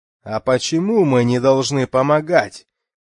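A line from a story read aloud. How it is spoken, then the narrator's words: Shout. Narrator (Russian): крикнул Дов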